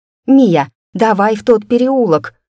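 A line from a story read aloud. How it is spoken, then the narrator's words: Shouted. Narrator (Russian): крикнула я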